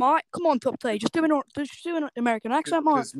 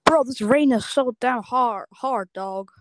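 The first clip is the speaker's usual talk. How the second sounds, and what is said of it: Put-on American accent. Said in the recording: “give me your English accent, your American accent ... That's pretty good.”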